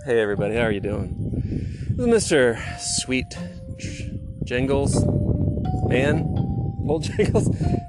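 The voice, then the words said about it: Attempted radio announcer voice. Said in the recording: “I tried to do my radio voice and it didn't come out very well”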